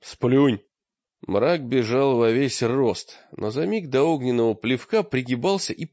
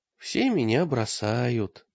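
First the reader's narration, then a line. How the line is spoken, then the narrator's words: Sad. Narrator (Russian): сказал Таргитай печально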